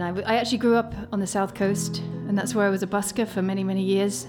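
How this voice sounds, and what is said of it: British accent. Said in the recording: “I am British, as you can tell”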